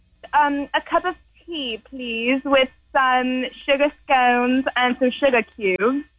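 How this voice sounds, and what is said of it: Exaggerated put-on British accent. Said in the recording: “Can you do a British accent? ... you sound like if Mary Poppins got high”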